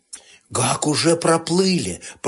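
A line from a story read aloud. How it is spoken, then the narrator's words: Whisper. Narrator (Russian): прошептала невзгода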